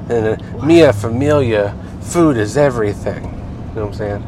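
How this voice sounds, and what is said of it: Mafia-style Italian-American voice. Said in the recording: “my best mafia family imitation”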